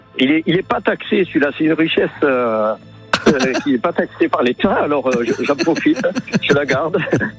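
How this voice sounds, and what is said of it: Singsong southern French accent. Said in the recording (French): “vous avez un accent chantant, là ? ... vous venez du sud-ouest ?”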